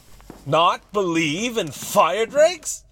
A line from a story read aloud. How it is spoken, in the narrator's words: cried Alfonso